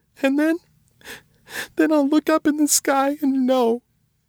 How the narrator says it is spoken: she sobbed, caught her breath

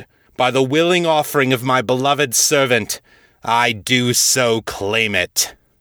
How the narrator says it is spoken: Ball bellowed

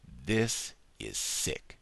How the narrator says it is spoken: he said slowly

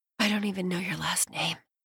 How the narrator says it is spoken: she whispers

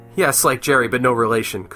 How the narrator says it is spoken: Kuzman chuckled

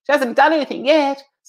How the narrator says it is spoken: called out, the tone clearly joking

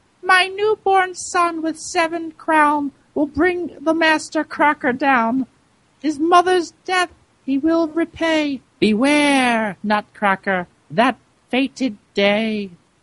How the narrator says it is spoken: As Dame Mouserink lay dying on the floor, she squeaked

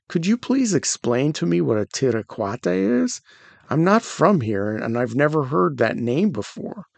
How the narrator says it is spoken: He asked calmly

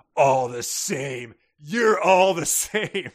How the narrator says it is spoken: angrily and says

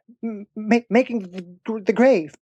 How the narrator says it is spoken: stammered the sexton

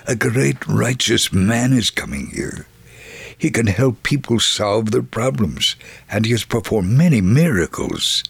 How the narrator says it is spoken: someone cautiously whispered

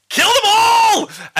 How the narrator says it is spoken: because she's now afraid of you, yells out

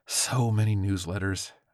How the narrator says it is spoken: sighed exhaustedly

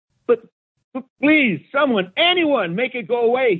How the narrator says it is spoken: shouted

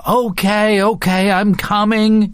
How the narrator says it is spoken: he yells, also fearing to hear number 3

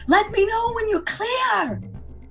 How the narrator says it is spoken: At the top of her tiny little Agatha voice, and she says

